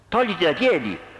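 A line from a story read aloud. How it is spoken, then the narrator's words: Furious yelling. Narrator (Italian): urlò Alex furibondo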